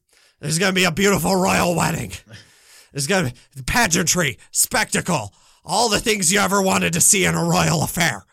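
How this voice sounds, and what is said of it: Gravelly imitation of another person's voice. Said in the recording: “my Vince is not great ... as gravelly as I need to sound to do a proper Vince McMahon ... a good Vince McMahon impression ... It was passable, passable”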